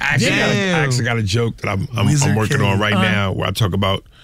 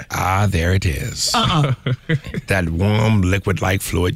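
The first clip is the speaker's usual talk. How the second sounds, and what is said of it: Morgan Freeman narrator impression. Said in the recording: “I get by Morgan Freeman ... How's he narrate? You can do his voice?”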